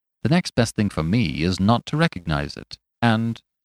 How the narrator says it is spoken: he added coolly

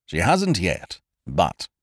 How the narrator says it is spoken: said Ukridge grimly

